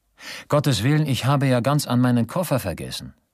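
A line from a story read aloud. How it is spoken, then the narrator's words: Exclamation. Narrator (German): rief er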